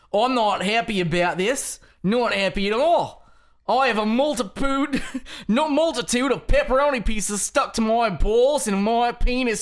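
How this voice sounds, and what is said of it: Put-on British or Australian accent. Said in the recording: “I'm gonna read it as the UK Australian.”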